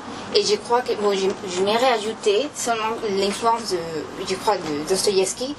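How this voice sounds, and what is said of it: Non-native accent speaking French. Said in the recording (French): “désolé pour mon accent.”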